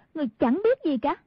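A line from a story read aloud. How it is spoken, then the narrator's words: Scoffing, suddenly angry. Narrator (Vietnamese): Hoa Tranh phì một tiếng, đột nhiên chuyển sang tức giận, nói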